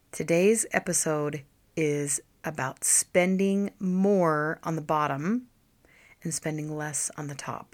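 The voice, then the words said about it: Unusually deep, low, rough voice. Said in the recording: “my deep voice ... my voice just decided to go a couple of octaves low, and I have a low voice anyway ... I sound like a man ... I don't have a voice”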